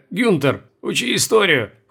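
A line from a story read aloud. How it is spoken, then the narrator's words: Snort. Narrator (Russian): хмыкнул Колобков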